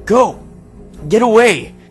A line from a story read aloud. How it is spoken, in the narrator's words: It looked like he was shouting